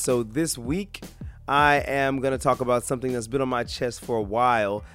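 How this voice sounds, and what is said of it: Worn-out voice from illness. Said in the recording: “I know I sound a little bit weird. I've been under the weather. My voice is kind of shot from being sick”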